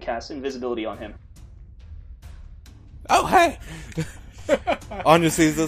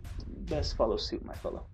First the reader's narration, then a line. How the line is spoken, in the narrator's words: whispers